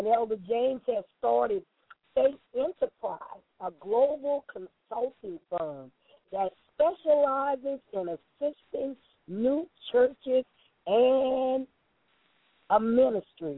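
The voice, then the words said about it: Southern American accent. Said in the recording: “I'm a Southern girl. You all still hear this accent.”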